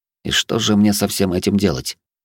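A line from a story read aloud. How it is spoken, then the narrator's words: Muttered under breath. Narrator (Russian): буркнул я себе под нос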